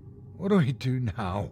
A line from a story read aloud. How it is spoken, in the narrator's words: choked Jim